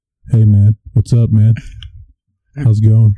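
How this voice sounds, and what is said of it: Imitates another person's voice. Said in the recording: “my impression of Mitchell the last couple episodes ... Mitchell doesn't sound like shit”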